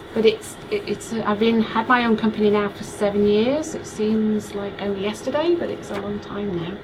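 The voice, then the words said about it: Slight Yorkshire English accent. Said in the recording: “I'm picking up on a slight accent ... I'm from the United Kingdom. I'm from Yorkshire in the United Kingdom”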